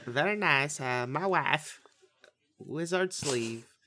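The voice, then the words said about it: Borat accent impression. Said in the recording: “Borat 2 ... I thought you were going to do the accent.”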